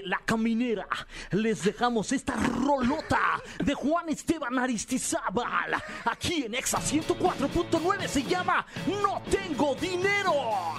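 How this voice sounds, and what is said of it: Radio announcer voice. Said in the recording (Spanish): “¿con qué tanta voz de locutor podrías presentar el siguiente tema?”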